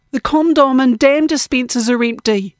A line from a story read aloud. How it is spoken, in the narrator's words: they shouted, oblivious to the tense scene